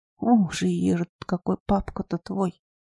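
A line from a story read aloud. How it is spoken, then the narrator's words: Quiet grandmother. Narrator (Russian): тихо произнесла бабуля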